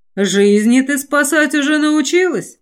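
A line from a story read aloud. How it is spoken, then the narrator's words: Scoffing snort. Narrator (Russian): хмыкнул Наар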